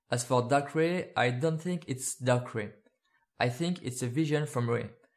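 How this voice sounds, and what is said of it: French accent speaking English. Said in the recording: “From across the pond in France, so we really are rolling out those magnificent accents ... I'm sorry for my accent, sometimes I feel like a very bad impersonation of David Suchet, Hercule Poirot”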